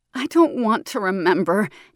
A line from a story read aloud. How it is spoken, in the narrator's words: Janelle cried noisily